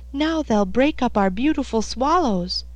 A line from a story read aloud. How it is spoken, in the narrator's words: he cried